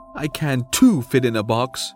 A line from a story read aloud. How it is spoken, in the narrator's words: he muttered